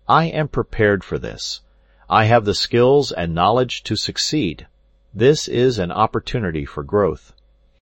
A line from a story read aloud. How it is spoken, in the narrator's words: calmly telling yourself